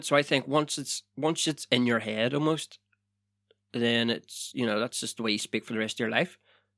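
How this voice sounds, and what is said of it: Northern Irish accent. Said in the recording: “I've moved away from Northern Ireland 14 years ago, and I still have my accent.”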